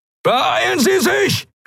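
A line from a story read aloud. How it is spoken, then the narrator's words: Shouting. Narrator (German): schrie Telios in den Kubus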